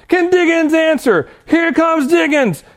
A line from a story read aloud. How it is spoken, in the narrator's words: he's basically like screaming over the other commentator